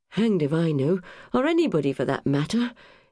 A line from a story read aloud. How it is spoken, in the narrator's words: said with a sigh